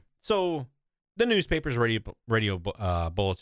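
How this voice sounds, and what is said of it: Usual voice. Nothing is said of it.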